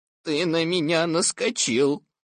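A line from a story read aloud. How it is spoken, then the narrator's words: Gloomy. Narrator (Russian): мрачно сказал я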